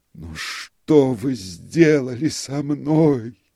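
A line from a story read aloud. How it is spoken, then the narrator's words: Moaning. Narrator (Russian): простонал он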